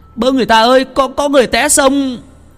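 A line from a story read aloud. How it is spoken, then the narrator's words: Shouting for help. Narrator (Vietnamese): Tùng la lên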